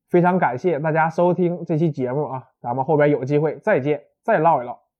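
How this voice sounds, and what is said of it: Strong Northeastern Chinese accent. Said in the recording (Chinese): “的东北口音是不是特别有味道”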